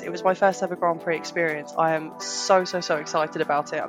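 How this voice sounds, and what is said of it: Sick, flu-affected voice. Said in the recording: “as you might be able to tell from my voice, I have picked up a little bit of that Silverstone flu... I am coughing and spluttering and sneezing”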